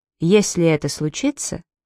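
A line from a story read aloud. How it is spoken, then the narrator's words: Even voice between sips. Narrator (Russian): ровным голосом между глотками кофе сказал он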